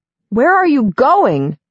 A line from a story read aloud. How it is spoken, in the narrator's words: shout after him